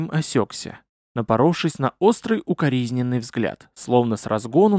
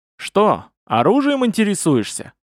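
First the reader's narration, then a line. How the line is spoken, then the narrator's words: Cheerful question. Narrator (Russian): весело спросил он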